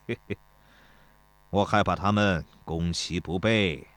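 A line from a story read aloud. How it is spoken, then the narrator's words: Chuckling. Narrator (Chinese): 田忌嘿嘿地笑了一声，说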